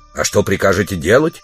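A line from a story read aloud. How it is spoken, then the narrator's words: Stern question. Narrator (Russian): строго спросил его спутник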